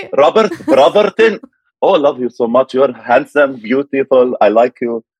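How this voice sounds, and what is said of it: Thick Middle Eastern accent. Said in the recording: “This accent is not what you hear when I was 18. Very much like this.”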